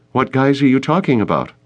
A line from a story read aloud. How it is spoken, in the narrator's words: Danielle asked nervously